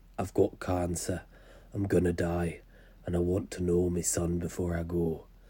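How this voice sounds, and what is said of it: Put-on Yorkshire accent. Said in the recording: “that was a Yorkshire accent, and it was spectacular ... Spot on, I think.”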